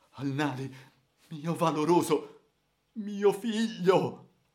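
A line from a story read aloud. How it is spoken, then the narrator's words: Terrified, desperate sobbing call. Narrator (Italian): Il Rajah, atterrito, angosciato, singhiozzando disperatamente e chiamandolo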